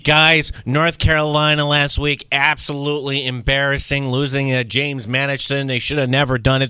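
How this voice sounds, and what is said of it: Bad PJ impression, sounds like Roz. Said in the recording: “This is a really bad PJ impression ... When did PJ become Roz from Monsters, Inc.? ... the impression not good”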